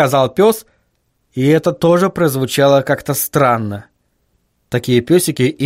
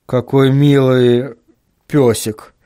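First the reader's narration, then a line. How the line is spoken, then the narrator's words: Uncertain. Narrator (Russian): неуверенно произнес Вильям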